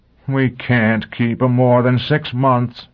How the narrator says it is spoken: the mayor groaned

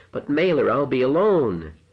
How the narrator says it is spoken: cried

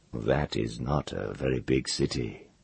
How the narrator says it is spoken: he said cautiously and gently

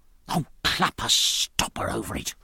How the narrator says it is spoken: whispered

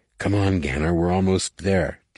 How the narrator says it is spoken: Jason whispered

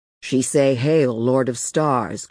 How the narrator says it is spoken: growled one of her squat escorts in Pigeon Galactic

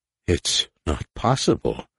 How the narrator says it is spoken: he said, his voice dulled by shock

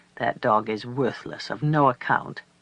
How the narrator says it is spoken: The old woman grumbling

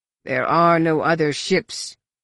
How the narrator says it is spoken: Ushk Choka growled

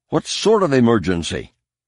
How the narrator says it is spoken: Han's voice was rising sharply with each syllable uttered

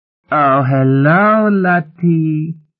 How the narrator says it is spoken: cooed

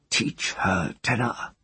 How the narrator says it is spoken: he whispered

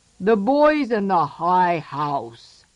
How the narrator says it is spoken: growled the troll

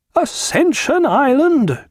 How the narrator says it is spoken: cried Lord Merrick

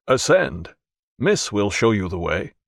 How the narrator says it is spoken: said in a more human tone

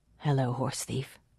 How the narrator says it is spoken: said softly

